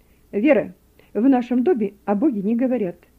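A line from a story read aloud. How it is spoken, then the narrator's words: Stern. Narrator (Russian): строго сказала Роза Григорьевна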